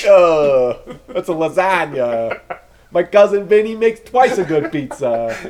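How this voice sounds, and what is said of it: Poor attempt at New York accent. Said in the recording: “What is your accent? ... I can't do accents. ... that is not a New York accent. ... I think that's a Pittsburgh accent.”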